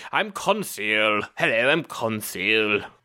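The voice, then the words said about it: Imitated film character voice. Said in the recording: “my impression of him”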